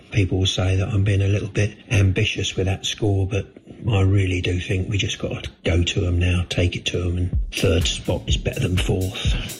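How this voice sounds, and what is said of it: Deflated, downbeat voice. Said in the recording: “as you can tell in my voice, I'm a little bit ... a bit deflated”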